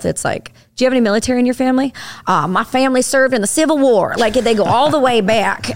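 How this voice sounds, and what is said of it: Put-on Southern American accent. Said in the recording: “that's a pretty good Southern accent ... I try real hard.”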